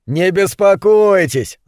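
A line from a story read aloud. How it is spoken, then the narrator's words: Laughing. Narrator (Russian): засмеялся сосед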